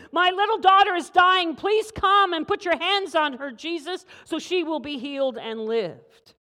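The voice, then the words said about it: Urgent, pleading voice. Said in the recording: “hear the urgency in his voice?”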